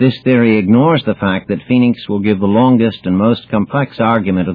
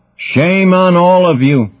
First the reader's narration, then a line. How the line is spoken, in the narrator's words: shouts the son of Atreus at his bedraggled army